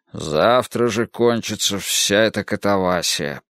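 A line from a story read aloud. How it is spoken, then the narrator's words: Muttering. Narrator (Russian): бормотал он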